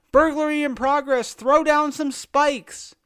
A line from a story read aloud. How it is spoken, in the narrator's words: I yelled on the mic